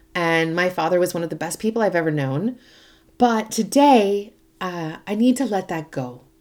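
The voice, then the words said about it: Emotional, shaky voice. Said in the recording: “I'm clearly still emotional, you can probably hear it in my voice”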